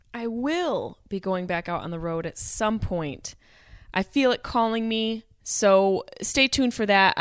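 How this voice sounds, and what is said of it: Strained, failing voice. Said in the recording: “I don't know what's wrong with my voice. I'm losing my voice.”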